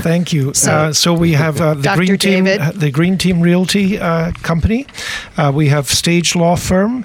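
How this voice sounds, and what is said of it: Brogue accent. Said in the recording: “We want to hear your brogue.”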